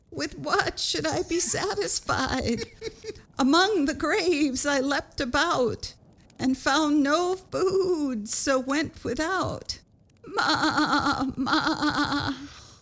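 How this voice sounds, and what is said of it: Goat character voice. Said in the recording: “I should read this in a goaty voice ... I wish I'd come up with a goat voice earlier”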